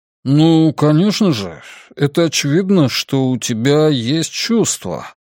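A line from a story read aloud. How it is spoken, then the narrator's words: Puzzled drawl. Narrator (Russian): озадаченно протянул Ратти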